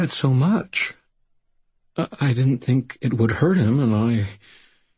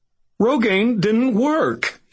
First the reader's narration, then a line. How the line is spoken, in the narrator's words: he all but wailed